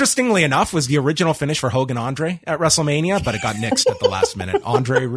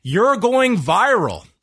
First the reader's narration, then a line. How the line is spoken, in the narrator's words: yells